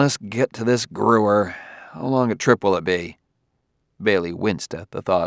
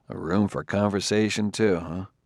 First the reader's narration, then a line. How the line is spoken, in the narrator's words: Bailey murmured wryly